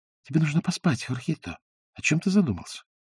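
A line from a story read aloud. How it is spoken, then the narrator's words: Soft older woman. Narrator (Russian): Донья Исабель негромко сказала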